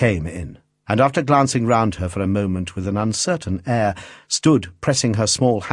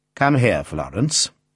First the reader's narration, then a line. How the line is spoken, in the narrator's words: said her father coldly